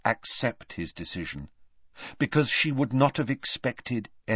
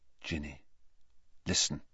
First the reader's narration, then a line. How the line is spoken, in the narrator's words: he said very quietly